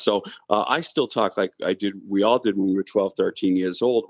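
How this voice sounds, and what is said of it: Strong Boston accent. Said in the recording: “I have a strong Boston accent”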